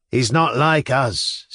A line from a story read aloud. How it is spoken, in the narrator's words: said one